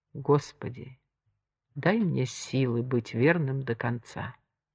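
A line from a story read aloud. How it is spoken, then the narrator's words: Whispered. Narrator (Russian): прошептал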